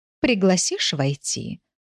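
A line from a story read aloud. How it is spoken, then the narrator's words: Plain. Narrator (Russian): спросила Фатима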